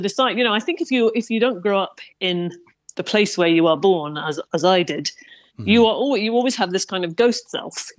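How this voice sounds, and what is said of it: English accent. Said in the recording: “You're very aware of your English accent when you're here.”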